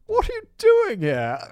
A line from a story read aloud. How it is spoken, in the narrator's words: Queenie exclaimed in the poshest voice imaginable